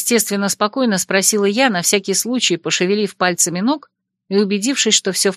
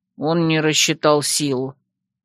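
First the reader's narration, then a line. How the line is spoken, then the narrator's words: Grumbling. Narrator (Russian): проворчал Лин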